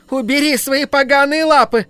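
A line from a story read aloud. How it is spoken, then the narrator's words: Scream. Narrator (Russian): кассирша закричав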